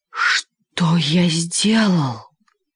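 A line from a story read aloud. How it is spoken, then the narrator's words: Sighing. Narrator (Russian): вздохнул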